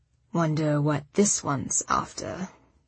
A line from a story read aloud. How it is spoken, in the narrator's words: Arjun said to me quietly